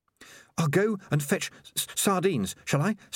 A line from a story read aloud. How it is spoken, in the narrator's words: stammered Nourishing